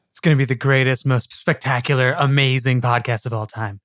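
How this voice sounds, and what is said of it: Bad Trump impression. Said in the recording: “trying to like do Trump imitations ... an actual voice imitation that he just did ... Which was a complete failure ... doing a really bad impression of Colbert's impression of Trump”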